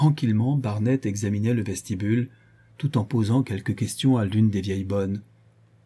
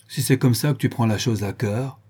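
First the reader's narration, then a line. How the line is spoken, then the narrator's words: Furious exclamation. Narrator (French): s'écria Béchou, furieux,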